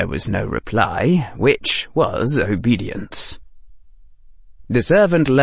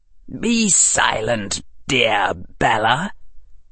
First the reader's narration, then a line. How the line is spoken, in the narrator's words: Harry said in a chill voice